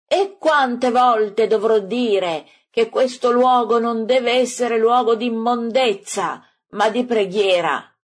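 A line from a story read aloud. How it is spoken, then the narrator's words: Shouting after them. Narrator (Italian): E Gesù grida dietro a loro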